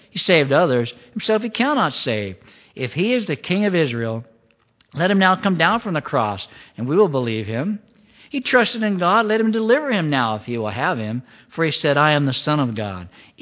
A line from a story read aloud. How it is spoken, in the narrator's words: the chief priest also, mocking with the scribes and elders, said